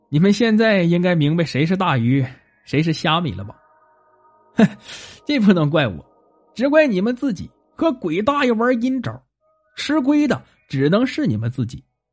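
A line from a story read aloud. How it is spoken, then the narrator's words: With a smile. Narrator (Chinese): 他笑了笑说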